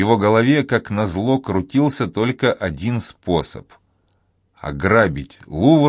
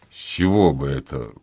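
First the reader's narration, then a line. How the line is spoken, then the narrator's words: Curt grumble. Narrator (Russian): буркнул он, не собираясь делиться с ней сокровенными мыслями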